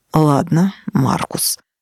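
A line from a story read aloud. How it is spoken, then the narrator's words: Sighing wizard. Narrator (Russian): вздохнул волшебник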